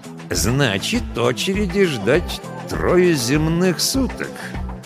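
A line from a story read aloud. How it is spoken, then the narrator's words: Ominous voice. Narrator (Russian): нехорошим голосом уточнил он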